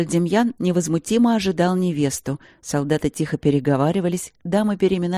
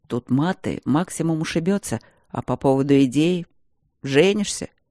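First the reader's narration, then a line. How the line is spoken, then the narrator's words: Quiet reply. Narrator (Russian): Так же тихо ответил Демьян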